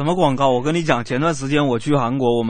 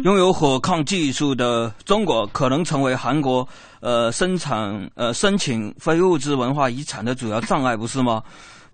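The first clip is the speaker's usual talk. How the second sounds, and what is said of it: Imitated Korean accent in Chinese. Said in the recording (Chinese): “请问这位韩国专家，你是不是看咱们的某些广告看多了？这口音学的有点不大对呀。”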